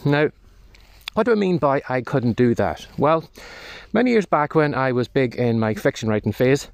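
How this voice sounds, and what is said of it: Slightly out of breath. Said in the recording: “I'm sounding a little bit out of breath as I'm walking around the field”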